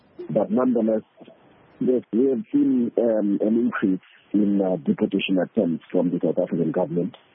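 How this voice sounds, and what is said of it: Sick, strained voice. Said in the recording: “I hope I'm audible enough from coming up with the flu ... I'm hoping that my voice is audible enough”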